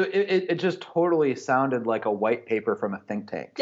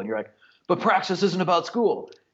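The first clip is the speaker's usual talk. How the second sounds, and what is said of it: Imitates another person's voice. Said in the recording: “I love your impersonation of me. That was really good.”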